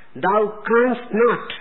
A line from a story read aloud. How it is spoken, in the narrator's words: the man cried out